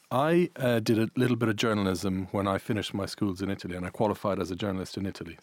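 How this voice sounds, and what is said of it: Irish accent. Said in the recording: “I'm Irish Italian. You might hear an Irish accent”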